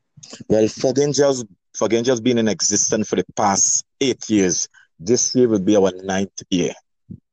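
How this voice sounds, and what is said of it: Slight Tobagonian accent. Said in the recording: “I'm detecting a little accent. Are you from Tobago?”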